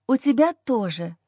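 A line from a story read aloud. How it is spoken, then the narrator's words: Hoarse voice. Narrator (Russian): произношу хрипло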